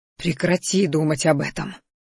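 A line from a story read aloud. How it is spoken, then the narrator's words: Growling at oneself. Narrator (Russian): рыкнул на самого себя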